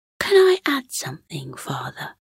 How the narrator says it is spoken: Cosmo piped up unexpectedly

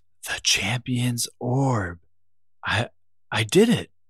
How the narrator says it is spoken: Overcome with his own accomplishment, he whispered to himself

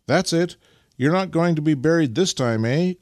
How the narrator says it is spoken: cried Nikita encouragingly

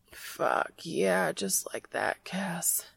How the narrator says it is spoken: he groans

